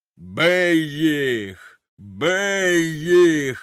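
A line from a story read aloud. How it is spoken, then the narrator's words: Thunderous roar. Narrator (Ukrainian): ревів він громовим голосом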